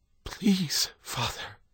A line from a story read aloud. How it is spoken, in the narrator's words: John whispered